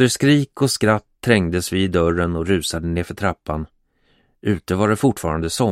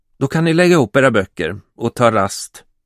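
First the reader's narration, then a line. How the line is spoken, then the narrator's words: Tense voice. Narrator (Swedish): sa med spänd röst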